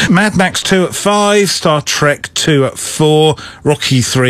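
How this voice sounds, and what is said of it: Usual voice. Nothing is said of it.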